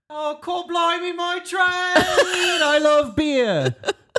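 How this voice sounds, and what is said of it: Bad put-on British accent. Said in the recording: “is from the UK ... Your accent? ... our offensive accents ... be bad”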